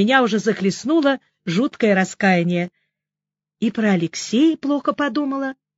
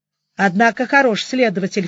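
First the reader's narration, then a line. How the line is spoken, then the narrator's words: Snorting. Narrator (Russian): фыркнула я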